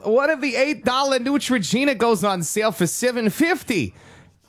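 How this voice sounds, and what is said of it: Weird Minnesota accent. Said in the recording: “that turned into like a weird Minnesota accent”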